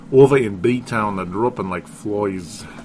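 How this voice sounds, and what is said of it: Put-on regional accent. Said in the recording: “that's the wrong accent.”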